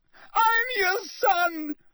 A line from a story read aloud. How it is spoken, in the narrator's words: He screamed up at Crouch